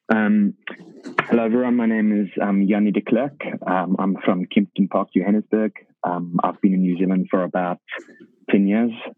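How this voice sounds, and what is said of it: South African accent. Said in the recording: “your alter ego South African accent ... you give them the South African accent ... you better be talking South African”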